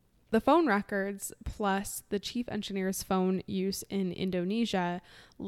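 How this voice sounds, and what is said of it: Usual voice. Nothing is said of it.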